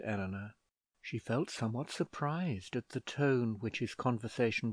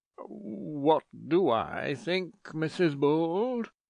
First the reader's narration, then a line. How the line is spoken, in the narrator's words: spoke very little like a thriving lover